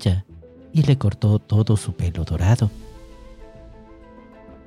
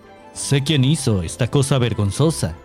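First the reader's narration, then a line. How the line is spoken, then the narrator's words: Angry shout. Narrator (Spanish): gritó Thor con ira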